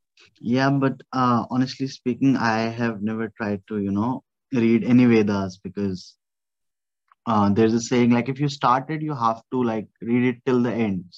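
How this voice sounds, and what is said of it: Strong accent, hard to understand. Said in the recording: “the accent is just killing me here ... I don't know what you said.”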